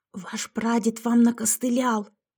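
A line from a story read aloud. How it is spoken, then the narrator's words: Hissing. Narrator (Russian): прошипела Яшка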